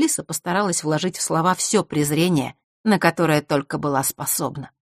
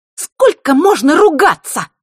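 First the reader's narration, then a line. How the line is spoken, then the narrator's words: Piercing shriek. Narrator (Russian): Пронзительно взвизгнула она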